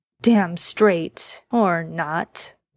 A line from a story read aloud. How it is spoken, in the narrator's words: Dean said with a chuckle